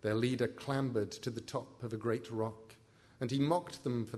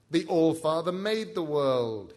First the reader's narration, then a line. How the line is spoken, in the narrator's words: he shouted